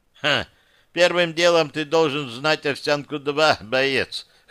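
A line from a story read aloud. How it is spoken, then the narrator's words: Chuckling. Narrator (Russian): хохотнул майор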